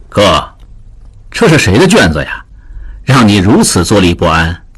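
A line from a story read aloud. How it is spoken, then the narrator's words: Laughing question. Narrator (Chinese): 胡淑淳笑问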